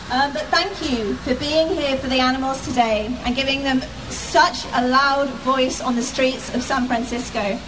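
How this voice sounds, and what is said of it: British accent. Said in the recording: “As you can probably tell from my accent, I'm not from around here. In Defense of Animals imported me from the UK”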